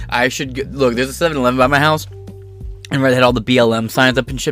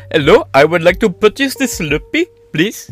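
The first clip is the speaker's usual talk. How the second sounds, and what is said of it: Put-on slight Indian accent. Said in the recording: “a slight Indian accent ... What's with that accent? ... So I have a slight accent.”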